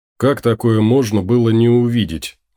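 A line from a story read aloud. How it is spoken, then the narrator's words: Gloomy reply. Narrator (Russian): мрачно отозвался Том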